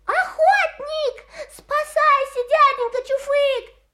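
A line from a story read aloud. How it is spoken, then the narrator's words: Shouted. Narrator (Russian): крикнул Русачок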